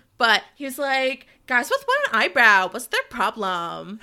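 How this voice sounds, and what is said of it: Valley Girl accent. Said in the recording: “said this in my accent ... It sounds very like Valley Girl”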